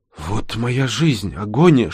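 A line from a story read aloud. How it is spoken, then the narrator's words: Whisper. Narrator (Russian): шепнула она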